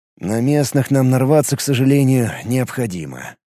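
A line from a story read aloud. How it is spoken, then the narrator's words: Sighing. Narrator (Russian): вздохнул Ид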